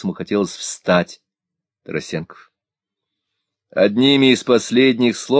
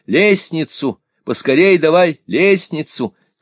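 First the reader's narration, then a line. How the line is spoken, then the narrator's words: Loud shout. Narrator (Russian): он закричал громко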